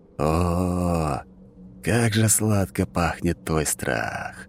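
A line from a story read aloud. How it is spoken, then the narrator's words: Long drawn-out exhale. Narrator (Russian): Протяжно выдохнул живодер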